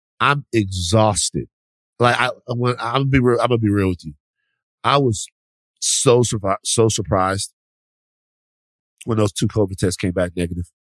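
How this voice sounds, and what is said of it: Sick, flu-affected voice. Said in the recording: “You definitely have the flu. You sound just like me.”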